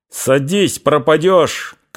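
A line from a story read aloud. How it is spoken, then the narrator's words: Shouted. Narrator (Russian): крикнул Фомин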